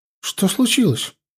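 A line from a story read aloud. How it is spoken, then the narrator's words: Frightened girl asking. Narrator (Russian): испуганно спросила девчонка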